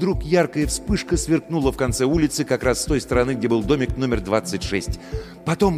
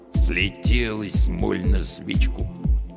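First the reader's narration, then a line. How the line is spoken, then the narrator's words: Grumbling watchman. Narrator (Russian): проворчал сторож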